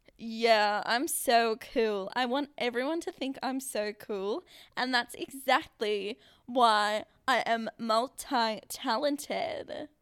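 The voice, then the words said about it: Put-on American accent. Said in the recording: “I'll start speaking an American accent soon... I'm really bad at American accents, but here we go... That was really good.”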